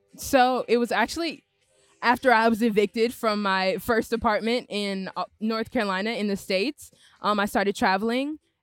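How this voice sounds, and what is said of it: American accent. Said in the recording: “you have an American accent. Well, everyone who can't hear, you've got an American accent.”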